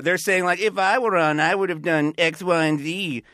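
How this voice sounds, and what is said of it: Mocking nerdy voice. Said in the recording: “mean nerd voice”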